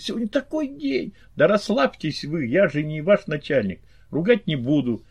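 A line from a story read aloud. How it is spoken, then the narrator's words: Cheerful, tossed off. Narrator (Russian): весело бросила Магдалена, явно наслаждаясь разницей в положениях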